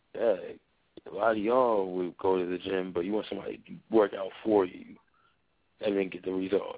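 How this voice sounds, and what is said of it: Tired-sounding voice. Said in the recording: “You hear it in my voice. Yeah, I'm tired.”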